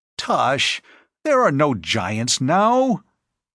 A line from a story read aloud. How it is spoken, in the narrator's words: laughing and jeering